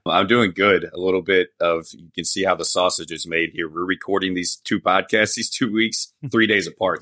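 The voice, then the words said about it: Congested voice, sounds like a cold. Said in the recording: “I still sound like I have a cold”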